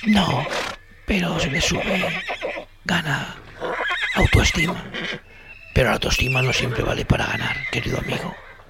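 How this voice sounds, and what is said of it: Speaks in a whisper. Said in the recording (Spanish): “¿Por qué lo susurras? ¿No hablas normal? ... he perdido la voz. Por eso susurro.”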